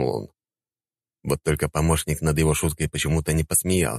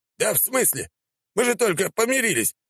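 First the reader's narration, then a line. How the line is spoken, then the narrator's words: Wailing emperor. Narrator (Russian): взвыл император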